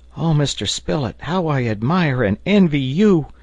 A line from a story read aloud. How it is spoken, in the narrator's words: cried Herbert in a fit of very natural enthusiasm